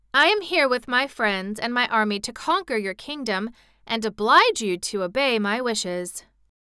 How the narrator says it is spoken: said Ozma firmly

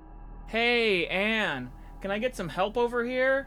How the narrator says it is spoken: I called out

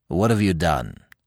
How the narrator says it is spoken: asked the Commissioner

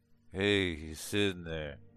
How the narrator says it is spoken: my husband mumbled

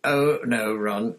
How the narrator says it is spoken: came Fred's voice very sarcastically

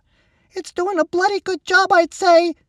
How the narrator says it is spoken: Seth replied, his voice trembling at the end

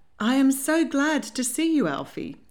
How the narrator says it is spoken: greeted him warmly

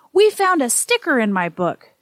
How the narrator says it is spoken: she exclaimed

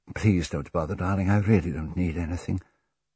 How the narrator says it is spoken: Lucia's murmured

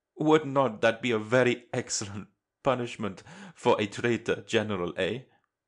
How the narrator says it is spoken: Merisov laughs

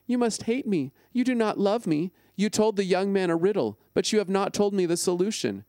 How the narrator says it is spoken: Samson's bride cried on his shoulder and said

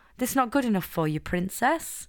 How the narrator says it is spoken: Lily sighed

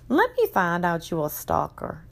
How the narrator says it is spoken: I chuckled

